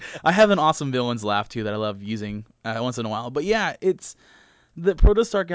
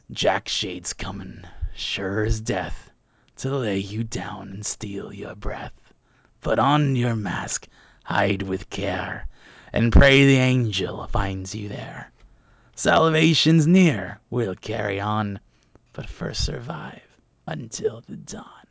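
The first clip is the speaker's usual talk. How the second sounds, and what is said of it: Creepy villain character voice. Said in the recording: “I'm going to do a voice for this ... That was really genuinely creepy.”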